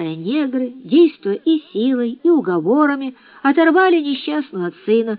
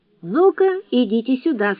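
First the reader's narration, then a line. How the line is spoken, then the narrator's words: Plain. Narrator (Russian): сказал Гейли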